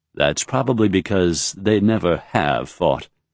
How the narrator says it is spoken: Raythan said

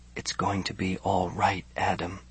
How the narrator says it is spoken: he whispered

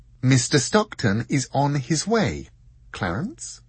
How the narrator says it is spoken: she said calmly

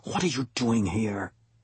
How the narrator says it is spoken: Uri whispering into my ear

